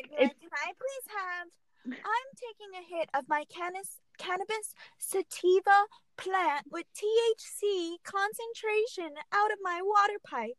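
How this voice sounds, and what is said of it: Put-on proper voice, shifting accents. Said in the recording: “Your accent changed like four times.”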